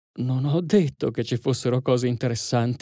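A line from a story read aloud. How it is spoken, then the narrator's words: Murmured. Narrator (Italian): mormorò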